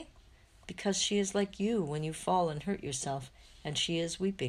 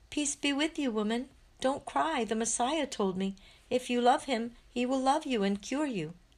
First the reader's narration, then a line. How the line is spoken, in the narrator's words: shouts the child